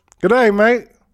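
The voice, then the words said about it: Attempted English accent, sounds Australian. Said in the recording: “I can do an English accent. ... That's Australian.”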